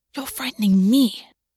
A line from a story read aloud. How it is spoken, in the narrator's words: August hissed